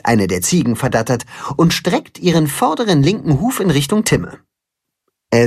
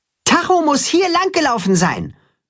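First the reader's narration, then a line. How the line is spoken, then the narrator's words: Calling toward pasture. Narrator (German): ruft er Richtung Weide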